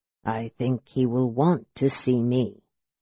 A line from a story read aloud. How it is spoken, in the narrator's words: said Raistlin quietly